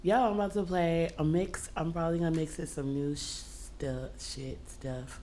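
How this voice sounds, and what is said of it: Hoarse, mostly lost voice. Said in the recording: “I lost my voice, so I feel like Eartha Kitt a little bit.”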